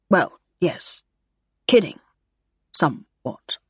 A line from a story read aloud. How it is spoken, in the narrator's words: he muttered